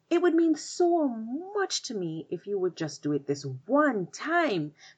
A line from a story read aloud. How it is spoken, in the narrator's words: pleaded the spider